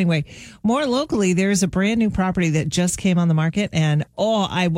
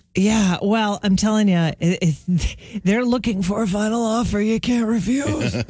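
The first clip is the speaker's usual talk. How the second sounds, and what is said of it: Godfather-style mobster voice impression. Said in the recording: “My best impression of The Godfather.”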